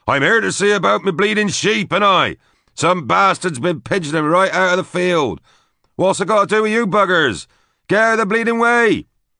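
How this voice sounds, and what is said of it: Broad Lincolnshire accent, bellowing. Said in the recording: “switched to a broad Lincolnshire accent and bellowed out of the open window”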